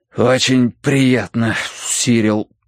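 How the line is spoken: Breathed out. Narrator (Russian): выдохнул я

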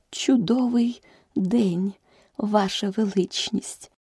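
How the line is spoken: Barely audible. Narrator (Ukrainian): почала герцогиня ледь чутним голосом

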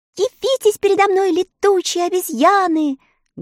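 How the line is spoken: Loud shout. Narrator (Russian): громко закричала Элли

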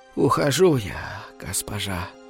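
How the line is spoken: Breathless, barely audible. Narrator (Russian): задыхаясь, едва слышно проговорила она

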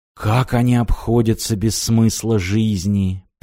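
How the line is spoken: Muttered. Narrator (Russian): пробормотал Мартин

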